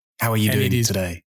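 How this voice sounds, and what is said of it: Gritty, gravelly put-on voice. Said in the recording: “putting on his grittiest voice ... my funny voice”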